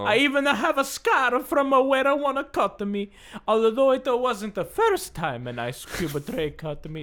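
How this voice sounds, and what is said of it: Convincing put-on Italian accent. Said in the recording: “that's a very impressive Italian accent.”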